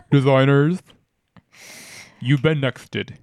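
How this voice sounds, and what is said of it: Imitates another person's voice. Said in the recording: “hear my impression of Tyra Banks”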